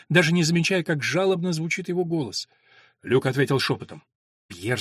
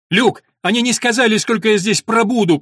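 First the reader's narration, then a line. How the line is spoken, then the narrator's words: Near shout, young man. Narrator (Russian): почти закричал юноша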